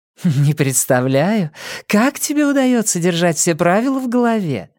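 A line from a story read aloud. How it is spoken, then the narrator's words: Giggling. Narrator (Russian): хихикнула Нина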